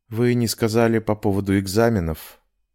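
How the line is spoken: Quiet. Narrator (Russian): тихо заговорила

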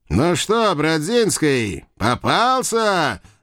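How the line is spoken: Gloating loud shout. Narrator (Russian): Злорадствуя громко прокричал Маклак

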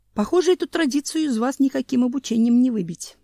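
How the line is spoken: Sigh. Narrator (Russian): вздохнул учитель

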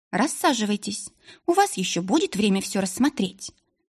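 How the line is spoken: Plain. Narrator (Russian): наконец сказала она

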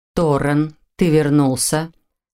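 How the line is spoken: Soft, smiling, matter-of-fact. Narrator (Russian): констатировал Ронан, мягко улыбаясь

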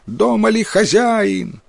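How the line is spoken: Loud shout. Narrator (Russian): кто-то громко прокричал

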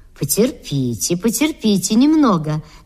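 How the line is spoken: Gentle. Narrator (Russian): говорил им ласково Белопух

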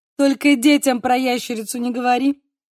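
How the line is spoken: Laughing. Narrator (Russian): сказала, смеясь

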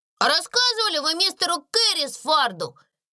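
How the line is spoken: Shout. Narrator (Russian): крикнул Дональд

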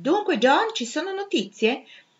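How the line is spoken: Exclaimed. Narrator (Italian): esclamò

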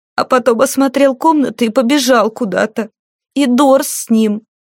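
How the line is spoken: Sobbing. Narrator (Russian): Она снова всхлипнула

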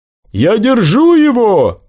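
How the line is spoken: Shouted. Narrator (Russian): крикнул Брахман

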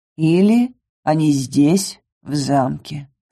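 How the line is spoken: Calm remark. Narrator (Russian): спокойно заметил Ингар

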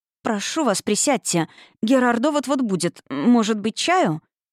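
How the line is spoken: Slight stammer. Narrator (Russian): бедняжка начала слегка заикаться

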